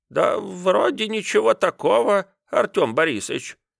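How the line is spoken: Uncertain. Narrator (Russian): сказал он, но как-то неуверенно

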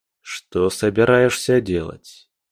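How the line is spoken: Even-toned killer's question. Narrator (Russian): ровным тоном спросил убийца

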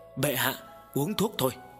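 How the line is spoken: Soft, smiling. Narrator (Vietnamese): Tần Mục khẽ mỉm cười, nhỏ nhẹ nói

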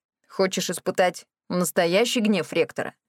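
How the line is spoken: Smirking. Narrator (Russian): хмыкнул Гуль

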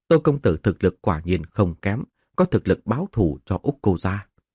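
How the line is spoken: Quiet laughing, young woman. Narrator (Vietnamese): một thiếu nữ bên cạnh nhỏ giọng cười nói

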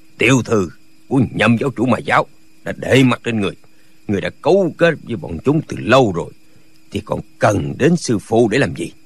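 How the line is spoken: Cold. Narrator (Vietnamese): Nhạc Bất Quần lạnh lùng nói

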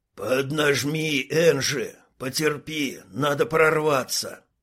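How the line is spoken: Tired bumblebee wheezing. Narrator (Russian): просипел не менее уставший шмель

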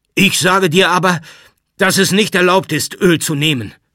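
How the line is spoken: Shout. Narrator (German): schrie Jakow

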